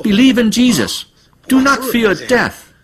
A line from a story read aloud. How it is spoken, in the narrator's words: an elderly sister, called out